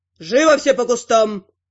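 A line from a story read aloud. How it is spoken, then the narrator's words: Barked order. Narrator (Russian): Рыкнул на нас магистр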